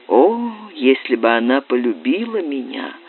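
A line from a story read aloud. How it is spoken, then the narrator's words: Quiet. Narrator (Russian): сказал он тихо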